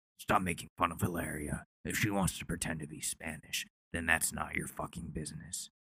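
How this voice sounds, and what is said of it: Mediocre Alec Baldwin impression. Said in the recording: “Alec Baldwin, who I try to do an impression of sometimes, and it's not really that great.”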